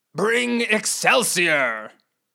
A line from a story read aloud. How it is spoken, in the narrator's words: Lord Beartrue bellowed with a bear-like growl